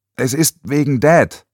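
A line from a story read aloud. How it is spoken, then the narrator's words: Calling out. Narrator (German): rief sie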